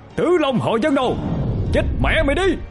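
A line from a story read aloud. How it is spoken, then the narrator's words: Loud furious shout. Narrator (Vietnamese): Người đó quát lớn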